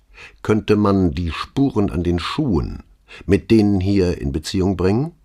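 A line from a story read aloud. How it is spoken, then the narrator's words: Plain question. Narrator (German): fragte Brunetti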